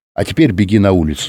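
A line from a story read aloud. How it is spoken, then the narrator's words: Plain. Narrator (Russian): сказал он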